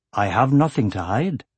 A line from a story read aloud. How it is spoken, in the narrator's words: said Tornak smoothly